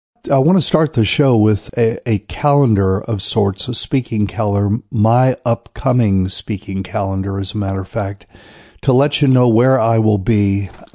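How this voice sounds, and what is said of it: Congested, stuffy nasal voice. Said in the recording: “The head congestion just keeps on rocking and rolling up there. So I'm going to do my best to speak in a comprehensible accent.”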